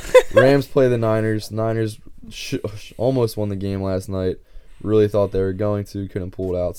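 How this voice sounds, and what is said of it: Slightly hoarse, strained voice. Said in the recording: “My voice, I'm losing my voice a little bit. I've been ... yelling at kids at the gym all day. ... if I'm coughing, that's why.”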